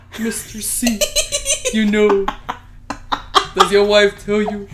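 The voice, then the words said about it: Imitates a girl's deep, mannish voice. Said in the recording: “She really talk like a man though... makes you talk like a man”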